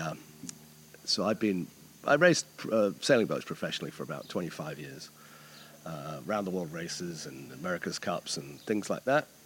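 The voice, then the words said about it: New Zealand accent. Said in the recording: “Strange accent. ... I'm originally from New Zealand”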